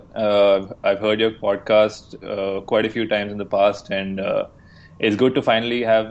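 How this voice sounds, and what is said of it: Indian English accent. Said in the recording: “three Indian guys ... talk about the NBA in an Indian accent”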